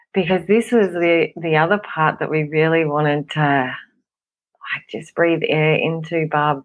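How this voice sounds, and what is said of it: Hoarse, throaty voice. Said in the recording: “excuse me, I've got a frog in my throat.”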